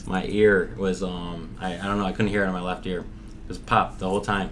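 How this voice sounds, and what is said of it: Scratchy voice. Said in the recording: “my voice is a little scratchy ... must be my scratchy voice”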